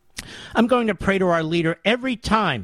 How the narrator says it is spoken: Mary said excitedly

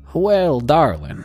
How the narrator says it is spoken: he said in a heavy southern accent

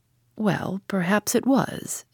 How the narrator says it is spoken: admitted Sir James gravely

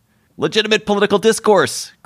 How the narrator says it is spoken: cried the school bully

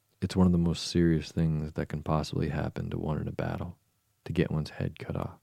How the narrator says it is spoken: he added very gravely

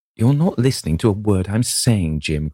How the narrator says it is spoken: cried Sybil

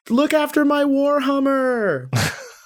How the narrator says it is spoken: I scream to Evan

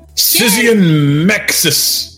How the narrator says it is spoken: Ryan yelled

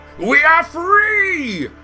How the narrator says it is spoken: Green roared

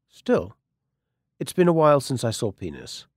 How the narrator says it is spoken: Valerie waited a beat, like an actual comedian, then said, very dryly

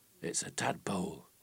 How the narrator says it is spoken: the lass whispered in his ear

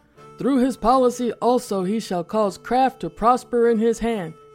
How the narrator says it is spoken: he shouted, flushing redder as he gained steam

